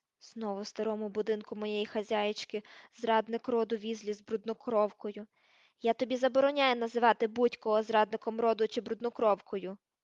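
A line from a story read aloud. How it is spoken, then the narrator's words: Growled. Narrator (Ukrainian): прогарчав Гаррі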